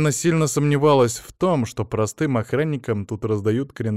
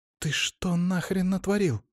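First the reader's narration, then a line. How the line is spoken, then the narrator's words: Hissed. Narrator (Russian): зашипела на него Самина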